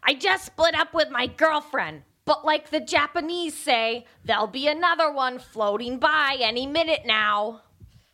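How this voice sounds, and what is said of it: Imitates another person's voice. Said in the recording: “my best Gilbert Gottfried impression”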